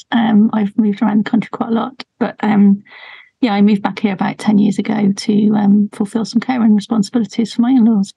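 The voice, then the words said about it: Non-local British English accent. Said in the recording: “my accent, as you can tell, probably isn't from Somerset”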